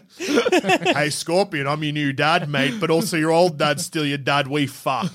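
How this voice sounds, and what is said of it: Put-on Australian accent. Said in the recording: “We all still have Australian accents.”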